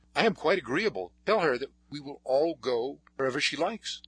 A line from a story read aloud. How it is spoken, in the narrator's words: Paul, who was very much excited, exclaimed